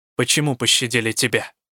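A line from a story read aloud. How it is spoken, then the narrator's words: Sharp question. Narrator (Russian): резко спросила я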